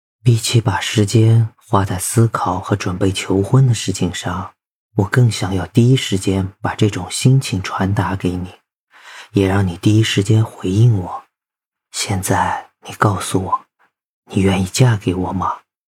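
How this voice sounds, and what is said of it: Soft whispered intimate speech. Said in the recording (Chinese): “贴着他的耳朵，小小声的说道”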